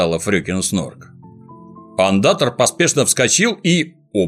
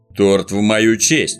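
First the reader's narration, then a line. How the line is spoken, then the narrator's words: Gloomy. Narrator (Russian): мрачно заметил мумитроль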